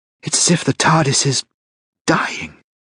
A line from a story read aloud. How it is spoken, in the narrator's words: whispered Sarah